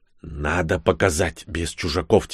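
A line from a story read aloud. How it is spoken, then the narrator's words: Quiet whisper. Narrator (Russian): тихо прошептал он мне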